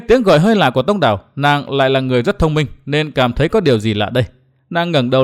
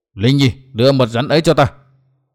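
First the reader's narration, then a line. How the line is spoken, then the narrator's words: Roaring. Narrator (Vietnamese): Đinh Cao gầm lên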